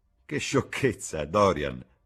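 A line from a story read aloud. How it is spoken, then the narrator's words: Laughing. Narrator (Italian): rise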